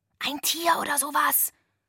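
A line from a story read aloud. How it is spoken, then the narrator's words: Whisper. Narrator (German): flüsterte ich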